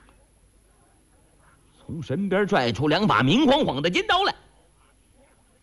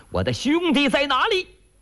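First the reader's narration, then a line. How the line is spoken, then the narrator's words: Shout. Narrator (Chinese): 穆大虫、顾大嫂喊了一声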